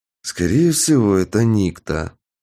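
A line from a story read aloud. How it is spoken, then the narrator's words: Heavy sigh. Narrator (Russian): тяжело вздохнул я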